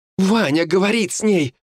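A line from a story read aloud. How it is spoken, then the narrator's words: Exclaiming. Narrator (Russian): воскликнула Ульяна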